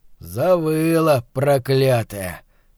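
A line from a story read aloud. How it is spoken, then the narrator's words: Slow, hoarse, angry. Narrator (Russian): неторопливо отозвался сиплый и злой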